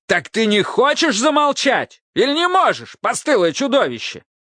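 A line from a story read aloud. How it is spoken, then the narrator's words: Yelled. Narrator (Russian): заорал Автоматей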